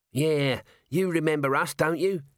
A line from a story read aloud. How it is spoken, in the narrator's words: said Nobby, in a wheedling voice